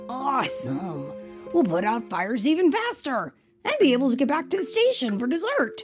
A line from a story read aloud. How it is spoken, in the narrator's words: Bob said happily